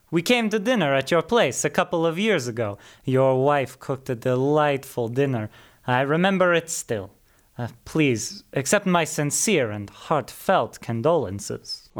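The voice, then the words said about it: Italian accent. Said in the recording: “his Italian accent”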